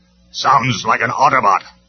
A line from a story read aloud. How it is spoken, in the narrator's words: snapped Rumble